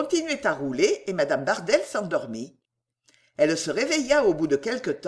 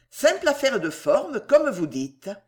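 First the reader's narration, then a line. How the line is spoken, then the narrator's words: Curt retort. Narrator (French): répliqua Jackson d'un ton sec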